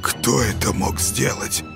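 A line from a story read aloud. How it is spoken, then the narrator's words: Muffled horrified whisper. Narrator (Russian): Глухо прошептал Юрка в ужасе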